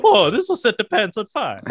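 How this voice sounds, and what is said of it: Mario-style cartoon voice impression. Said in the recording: “that wasn't an Italian. That wasn't an Italian impression. That was a Mario impression. That was totally different.”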